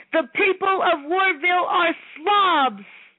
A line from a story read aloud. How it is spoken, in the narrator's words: Taking a deep breath, yelled